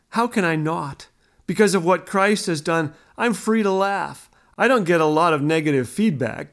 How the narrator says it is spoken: Ken laughed

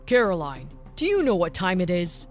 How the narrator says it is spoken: menacingly asked the father

